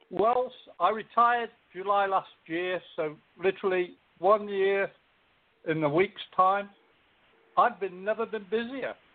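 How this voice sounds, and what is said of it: Speaks with a noticeable accent. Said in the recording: “everybody is going to get a kick out of your accent”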